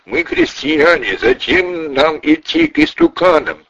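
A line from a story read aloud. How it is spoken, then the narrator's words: Loud reluctant shouting saints. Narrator (Russian): святые не хотели идти к идолам и громко кричали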